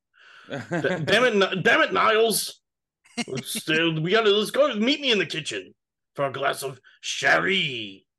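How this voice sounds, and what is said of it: Imitates Frasier's voice. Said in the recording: “I'm trying to get a Frasier accent.”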